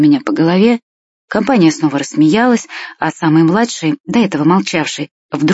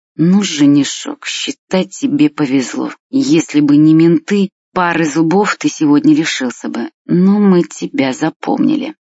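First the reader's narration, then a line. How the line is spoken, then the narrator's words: Through gritted teeth. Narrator (Russian): Костя процедил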